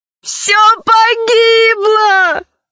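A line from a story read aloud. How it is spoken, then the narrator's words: Loud sobbing. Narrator (Russian): зарыдала еще громче Заури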